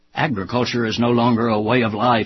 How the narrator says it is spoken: he barked

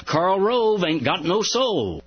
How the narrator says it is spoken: The crowd shouted back in unison

